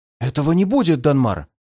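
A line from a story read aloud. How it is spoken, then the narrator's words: Ardent aristocrat exclaiming. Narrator (Russian): пылко воскликнул аристократ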